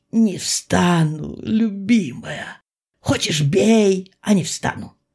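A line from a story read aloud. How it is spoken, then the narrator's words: Crying or laughing. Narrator (Russian): Серый то ли лил слезы, то ли хохотал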